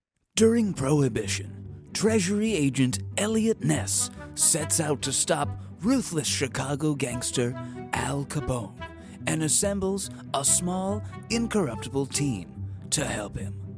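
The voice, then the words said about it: Dramatic movie trailer narrator voice. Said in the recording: “trailer voice ... Let's do trailer voice”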